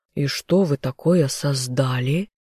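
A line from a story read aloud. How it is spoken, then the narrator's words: Plain. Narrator (Russian): спросил герцог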